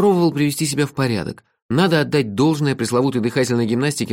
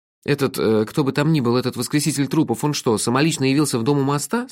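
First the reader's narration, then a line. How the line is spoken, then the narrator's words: Plain. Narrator (Russian): спросил я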